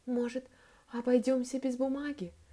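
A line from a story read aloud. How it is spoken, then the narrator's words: Whisper. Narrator (Russian): шепнула Молли Питеру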